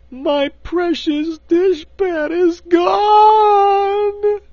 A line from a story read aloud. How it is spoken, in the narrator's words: she wailed